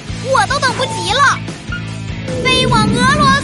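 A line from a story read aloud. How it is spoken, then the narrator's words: Shouting. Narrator (Chinese): 乐迪…大喊一声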